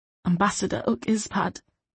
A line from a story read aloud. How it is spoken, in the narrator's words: he said a little hoarsely